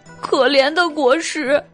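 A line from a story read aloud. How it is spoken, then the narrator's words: Crying. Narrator (Chinese): 酸泥哭道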